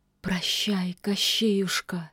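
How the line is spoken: Barely audible witch. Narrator (Russian): еле слышно повторила ведьма

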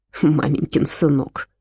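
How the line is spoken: Snort. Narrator (Russian): фыркнул Отто

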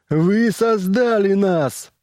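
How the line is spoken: Yelling. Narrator (Russian): заорал он

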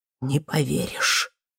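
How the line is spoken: Loud exhale. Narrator (Russian): Федя шумно выдохнул

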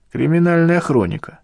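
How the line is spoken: Dwarf's snort. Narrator (Russian): хмыкнул карлик

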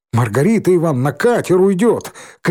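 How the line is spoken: Shouting. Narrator (Russian): крикнул Валька

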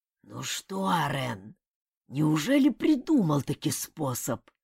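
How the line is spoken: Hoarse grumble. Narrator (Russian): хрипло проворчал

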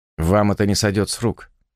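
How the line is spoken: Quick speech. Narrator (Russian): быстро сказал Роберт

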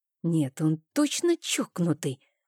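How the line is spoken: Muttered. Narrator (Russian): пробормотала

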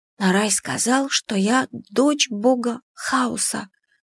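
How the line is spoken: Whispered confession. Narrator (Russian): призналась я шепотом

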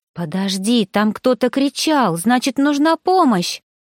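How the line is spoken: Exclamation. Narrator (Russian): Воскликнула

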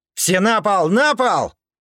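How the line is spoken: Yelled. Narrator (Russian): заорал Кир

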